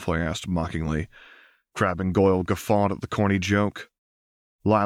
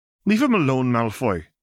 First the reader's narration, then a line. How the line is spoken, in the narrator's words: she snapped through clenched teeth